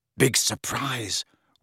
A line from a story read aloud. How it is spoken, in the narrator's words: whispered Ron